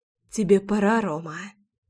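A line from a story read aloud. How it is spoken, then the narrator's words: Breathless, ragged breathing. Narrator (Russian): выдохнула, рваным дыханием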